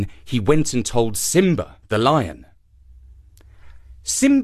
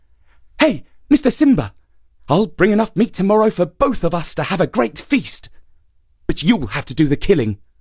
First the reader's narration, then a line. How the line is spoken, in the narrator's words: Sungura called out